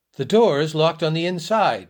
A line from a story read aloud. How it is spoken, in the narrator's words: exclaimed Clovis